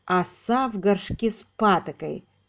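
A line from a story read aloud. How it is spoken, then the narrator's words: Plain. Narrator (Russian): как сказал Рейф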